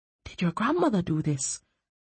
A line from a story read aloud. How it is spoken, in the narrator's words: Eard asked her quietly